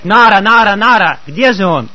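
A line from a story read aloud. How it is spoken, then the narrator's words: Shouting, calling out. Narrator (Russian): Он кричал, он звал меня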